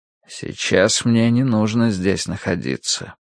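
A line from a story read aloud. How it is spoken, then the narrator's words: Quiet. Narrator (Russian): тихо произнес Цянь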